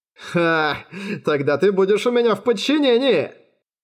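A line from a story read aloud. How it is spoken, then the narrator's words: Laughing. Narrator (Russian): Ахиллес Кёртис рассмеялся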